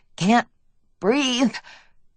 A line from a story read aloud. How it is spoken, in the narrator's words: I mumbled